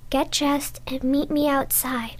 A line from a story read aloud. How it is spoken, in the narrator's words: Miss Jennifer whispers